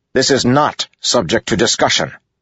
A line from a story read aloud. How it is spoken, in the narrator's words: Adolin snapped